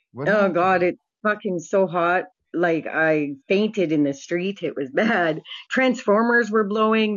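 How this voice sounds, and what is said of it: Canadian accent. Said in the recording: “I love your voice, your accent.”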